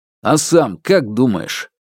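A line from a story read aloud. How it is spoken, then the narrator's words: Snapping back. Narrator (Russian): огрызнулся Алексей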